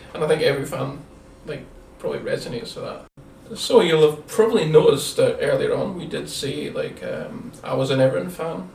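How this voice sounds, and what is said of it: Distinctive Scottish accent. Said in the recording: “I have a probably fairly distinctive Scottish accent”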